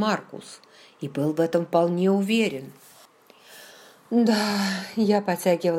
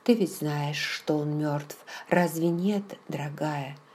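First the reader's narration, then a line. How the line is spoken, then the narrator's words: Barely audible speech. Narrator (Russian): Джейми говорил еле слышно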